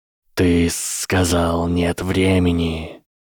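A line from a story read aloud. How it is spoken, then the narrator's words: Hissing reply. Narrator (Russian): раздалось ответное шипение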